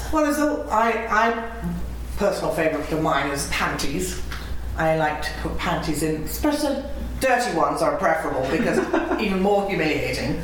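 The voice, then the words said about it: Posh English accent, like Mary Poppins. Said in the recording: “such a posh English accent ... you sound like Mary Poppins”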